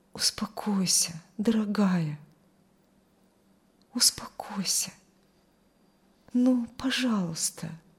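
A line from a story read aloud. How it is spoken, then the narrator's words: Soft whisper. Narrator (Russian): тихо шептал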